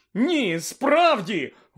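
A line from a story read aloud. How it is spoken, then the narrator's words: Desperate exclamation. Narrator (Ukrainian): вигукнув у відчаї містер Уізлі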